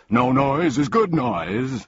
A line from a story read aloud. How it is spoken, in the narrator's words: exclaimed the humbug, happily